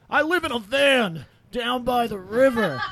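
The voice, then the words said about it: Chris Farley impression. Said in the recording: “That just makes me think of Chris Farley. ... your impersonation of Chris Farley”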